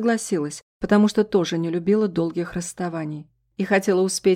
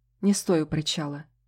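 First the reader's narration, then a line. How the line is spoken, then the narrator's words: Quiet request. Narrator (Russian): тихо попросил он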